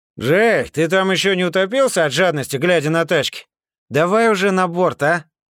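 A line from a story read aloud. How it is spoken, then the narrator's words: Shouted. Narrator (Russian): Крикнул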